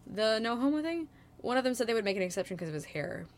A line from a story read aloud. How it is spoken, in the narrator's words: Bart draws quickly